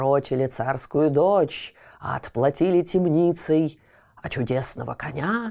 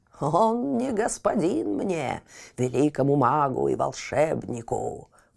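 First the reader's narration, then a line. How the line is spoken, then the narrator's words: Old man's hoarse croak. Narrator (Russian): прохрипел старец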